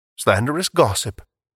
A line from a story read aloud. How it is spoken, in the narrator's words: Merriweather calmly protested